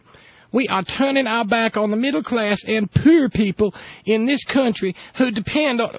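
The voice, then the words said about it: Imitates another person's voice. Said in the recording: “you have to do that with the right accent.”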